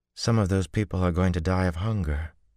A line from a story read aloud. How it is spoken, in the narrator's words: Min said sadly